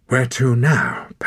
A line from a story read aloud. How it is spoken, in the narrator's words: panted Wren